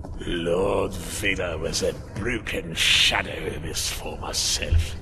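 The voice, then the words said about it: Imitates a villain's voice. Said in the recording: “Is that a Palpatine impression? ... It is.”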